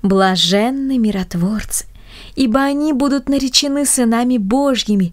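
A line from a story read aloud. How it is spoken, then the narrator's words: Grandmothers in unison. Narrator (Russian): дружно поддержали бабушки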